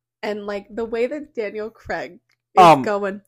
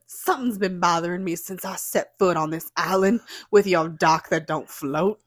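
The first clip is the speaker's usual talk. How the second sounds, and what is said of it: Imitated Southern US accent. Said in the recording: “His southern accent”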